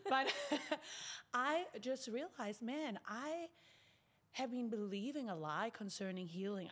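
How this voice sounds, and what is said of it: South African accent. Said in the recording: “I'm from South Africa, ... back to my original accent”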